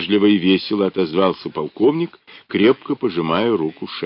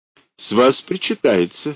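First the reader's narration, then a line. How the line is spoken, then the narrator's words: Laughing hint. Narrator (Russian): смеясь намекнул тот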